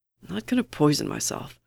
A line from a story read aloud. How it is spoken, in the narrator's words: Bucky mutters